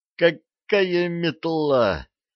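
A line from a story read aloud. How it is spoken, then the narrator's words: Pained groan. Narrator (Russian): простонал Арчи, катившийся в тот момент по земле от чего-то очередного удара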